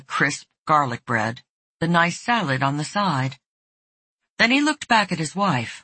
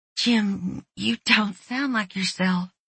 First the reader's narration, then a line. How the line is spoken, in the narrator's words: she said a bit unsteadily